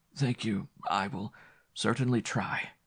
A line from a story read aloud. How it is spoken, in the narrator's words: whispered Parnacute, almost fainting with fatigue